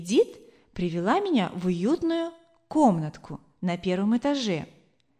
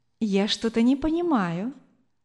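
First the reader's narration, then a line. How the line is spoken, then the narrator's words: Gentle woman's voice. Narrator (Russian): ласково сказала женщина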